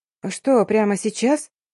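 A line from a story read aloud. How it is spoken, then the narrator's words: Frightened bleat. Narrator (Russian): проблеяла испуганно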